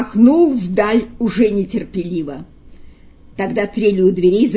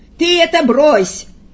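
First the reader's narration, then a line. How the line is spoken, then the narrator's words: Stern shout. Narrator (Russian): Павел Иосифович, обычно сдержанный и спокойный, крикнул на это сурово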